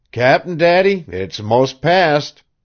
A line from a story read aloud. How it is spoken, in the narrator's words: your yells growing less and less, and by you called out tween squalls